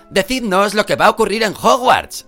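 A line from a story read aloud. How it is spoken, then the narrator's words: Shouting from window. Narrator (Spanish): gritó Fred desde la ventanilla cuando ya las figuras de la señora Weasley, de Bill y de Charlie empezaban a alejarse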